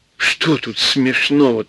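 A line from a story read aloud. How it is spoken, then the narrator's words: Serious whisper, huge man. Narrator (Russian): шепотом серьезно спросил огромный человек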